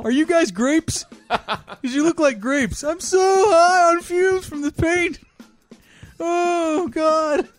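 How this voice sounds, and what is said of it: Intoxicated high-on-fumes character voice. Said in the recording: “It's a terrible Jacob impression ... I'm doing high on fumes guy”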